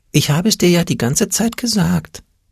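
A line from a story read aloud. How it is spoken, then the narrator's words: Whispered. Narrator (German): flüsterte der Angst Peter in Oles Ohr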